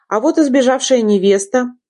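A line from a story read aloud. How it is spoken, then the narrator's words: Smirking snort. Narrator (Russian): хмыкнул он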